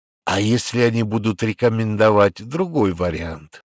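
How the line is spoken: Plain. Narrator (Russian): спросил Тальковский

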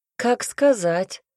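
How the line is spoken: Lazy objection. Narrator (Russian): лениво возразил куратор

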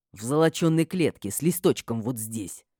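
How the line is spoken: Spiteful, angry. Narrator (Russian): злобно ответил Матиас

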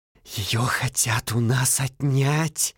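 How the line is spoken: Angry hiss. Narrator (Russian): Со злобой прошипел брат Роберто, подобно окропленному водой углю

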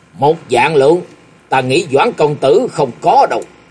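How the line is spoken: Sharp, irritable. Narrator (Vietnamese): Gã công tử họ Thái gắt giọng nói

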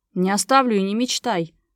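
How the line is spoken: Roaring. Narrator (Russian): взревел

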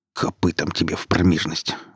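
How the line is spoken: Grumbling. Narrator (Russian): ворчал Гриф

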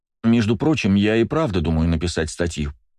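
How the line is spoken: Plain. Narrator (Russian): сказала Кристина

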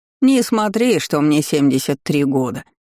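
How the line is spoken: Old woman's snort. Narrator (Russian): хмыкнула бабуля

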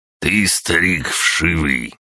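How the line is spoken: Hissed. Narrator (Russian): прошипел Гаврош

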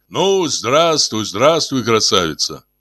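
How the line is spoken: Deep booming greeting. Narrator (Russian): забасил Игнатий

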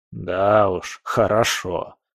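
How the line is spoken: Grumbling. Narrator (Russian): проворчал он

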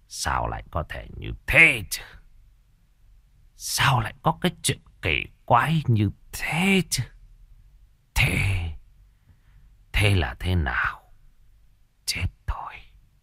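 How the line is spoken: Old man muttering. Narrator (Vietnamese): Ông Bá Điền lẩm bẩm

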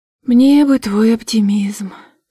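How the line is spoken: Sleepy mumble. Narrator (Russian): сонно пробормотала

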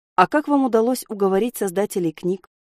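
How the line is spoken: Plain question. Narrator (Russian): спросил Селис

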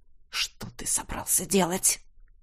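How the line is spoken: Hissing whisper. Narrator (Russian): Свистящим шепотом осведомился наследник престола

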